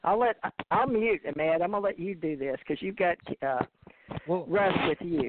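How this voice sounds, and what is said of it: Thick North Yorkshire accent. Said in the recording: “North Yorkshire person, UK? I'm the one with the thickest accent”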